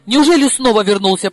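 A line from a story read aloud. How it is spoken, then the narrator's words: Panicked exclamation. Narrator (Russian): паникуя, воскликнул Коля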